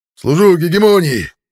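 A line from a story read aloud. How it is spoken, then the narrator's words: Barked in unison. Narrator (Russian): рявкнули мы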